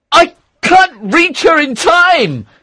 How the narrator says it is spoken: shouted

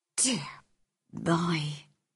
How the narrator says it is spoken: Susan Sowerby whispered

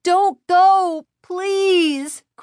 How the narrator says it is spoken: Chris cried

